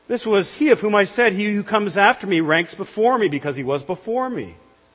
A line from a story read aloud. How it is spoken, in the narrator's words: John bore witness about him and cried out